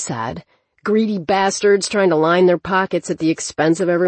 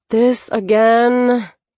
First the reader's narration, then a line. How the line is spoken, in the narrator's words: Nova moaned